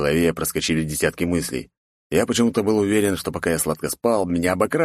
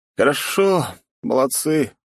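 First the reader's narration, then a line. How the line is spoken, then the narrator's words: Sleepy, yawning. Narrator (Russian): сонно отвечаю и зеваю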